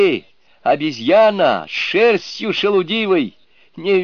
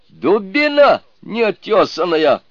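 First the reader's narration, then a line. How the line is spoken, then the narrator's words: Shouting. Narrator (Russian): крикнул он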